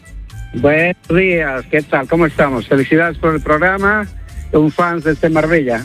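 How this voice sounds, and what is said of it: Bolivian Spanish accent, sounds Galician. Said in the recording (Spanish): “con ese acento digo yo, me nos llama del norte... soy yo boliviano... parecía gallego”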